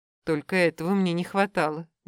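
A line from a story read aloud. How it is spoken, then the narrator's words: Grumbling. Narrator (Russian): буркнула девушка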